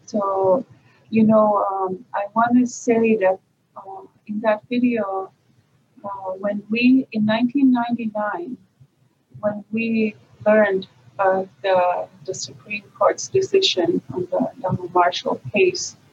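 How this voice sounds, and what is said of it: Strong Mi'kmaq accent. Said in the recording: “It's pretty strong Mi'kmaq accent.”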